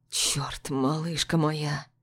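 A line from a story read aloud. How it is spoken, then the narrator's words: Tender, affectionate. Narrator (Russian): Ласково произносит он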